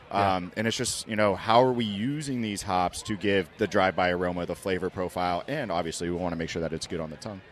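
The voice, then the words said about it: Smooth radio voice. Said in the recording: “Dude, you're the smoothest. You are the smoothest. ... I got, like, the radio voice ... you got the radio voice.”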